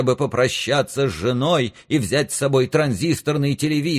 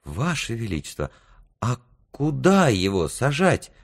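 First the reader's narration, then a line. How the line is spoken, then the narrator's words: Whispered question. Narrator (Russian): шепотом спросил министр медных и серебряных денег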